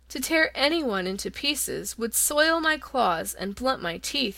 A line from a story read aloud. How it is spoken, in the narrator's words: he said